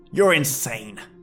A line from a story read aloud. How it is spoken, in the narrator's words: I spat back at the figure as a wave of nausea partially engulfed my mind